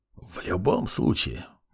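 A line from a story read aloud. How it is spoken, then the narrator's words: Whisper. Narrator (Russian): прошептал Мурмур ректору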